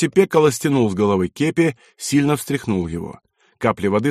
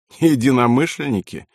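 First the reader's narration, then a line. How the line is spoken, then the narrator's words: Laughing. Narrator (Russian): рассмеялся полковник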